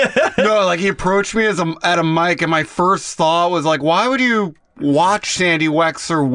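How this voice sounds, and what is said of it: Usual voice. Nothing is said of it.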